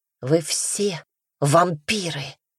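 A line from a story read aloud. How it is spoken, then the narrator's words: Hissed. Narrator (Russian): Прошипела она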